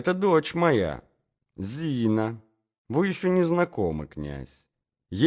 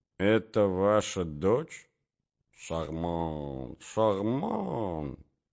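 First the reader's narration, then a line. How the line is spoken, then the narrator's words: Muttering. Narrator (Russian): бормочет князь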